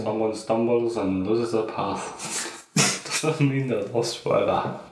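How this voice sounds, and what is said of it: Poor put-on British accent. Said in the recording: “He's British. ... fucking terrible accent.”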